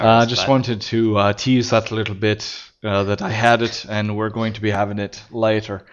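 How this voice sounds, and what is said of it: Sustained put-on accent. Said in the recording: “I can't believe I've kept this accent going this long”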